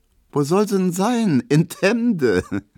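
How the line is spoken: Laughing female voice. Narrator (German): meint Emma und lacht

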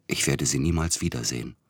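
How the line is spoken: Whisper. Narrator (German): flüsterte er

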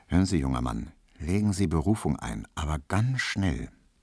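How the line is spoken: Very quiet, in passing. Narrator (German): sagte im Vorbeigehen so ganz leise zu ihm

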